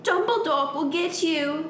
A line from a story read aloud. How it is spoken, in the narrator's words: Draco shouted